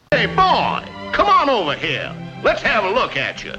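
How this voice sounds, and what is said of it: Foghorn Leghorn impression. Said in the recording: “his impression remind you of Foghorn Leghorn?”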